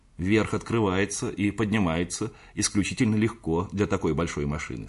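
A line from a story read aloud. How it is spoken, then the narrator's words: Plain. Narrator (Russian): сказал я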